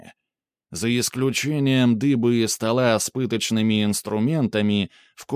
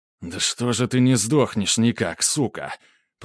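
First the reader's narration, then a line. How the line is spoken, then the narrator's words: Through gritted teeth. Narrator (Russian): процедил Грубер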